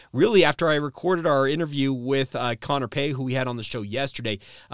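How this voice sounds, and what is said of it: Strained, hoarse voice from a cold. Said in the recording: “as you can tell, I'm not 100%. My voice has been a little bit shot the last two days ... with a head cold ... My voice, like I said, not 100%.”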